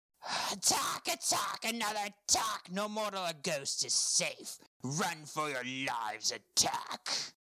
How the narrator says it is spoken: filled his lungs, screamed

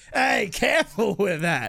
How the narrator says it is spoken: Brixton laughs

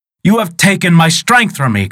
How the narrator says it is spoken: cried Shlipmi in fear

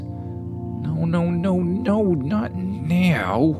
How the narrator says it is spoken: Tim groaned, frantically

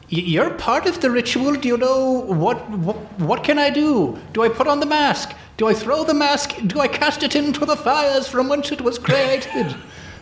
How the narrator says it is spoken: I just shout

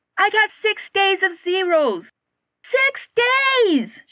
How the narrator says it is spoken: she shouted

